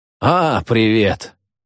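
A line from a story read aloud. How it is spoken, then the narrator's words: Indifferent hungover voice. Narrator (Russian): равнодушно похмельным голосом приветствует он меня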